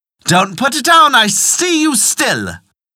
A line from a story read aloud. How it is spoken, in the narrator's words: the sister inside cried out